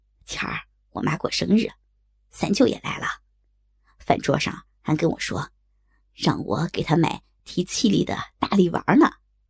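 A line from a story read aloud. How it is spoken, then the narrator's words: Hushed, low voice. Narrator (Chinese): 周宇压低了声音，小声冲我说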